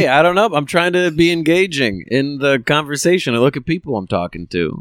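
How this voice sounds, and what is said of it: Usual voice. Nothing is said of it.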